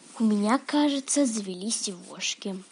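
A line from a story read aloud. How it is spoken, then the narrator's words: Thoughtful drawl. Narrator (Russian): задумчиво протянула Манюня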